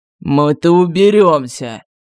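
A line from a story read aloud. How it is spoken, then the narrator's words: Strained wheeze. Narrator (Russian): натужно прохрипел демон, пытаясь ослабить захват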